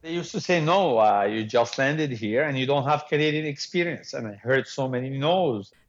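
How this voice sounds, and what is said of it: Heavy Lebanese accent. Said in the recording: “the heavy accent that I would love always to keep forever ... I love my accent”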